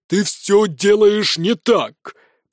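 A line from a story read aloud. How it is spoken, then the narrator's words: Thundering. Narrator (Russian): прогремел инквизитор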